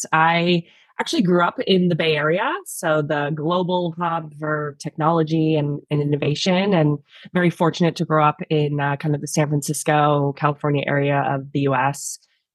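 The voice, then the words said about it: American accent. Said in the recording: “you can probably tell from the accent that I'm not from Australia. I'm actually from the States.”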